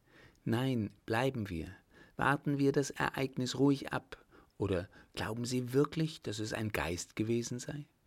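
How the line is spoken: Whispered reply. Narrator (German): antwortete flüsternd zurück

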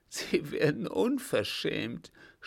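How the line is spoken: Sobbing. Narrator (German): schluchzte

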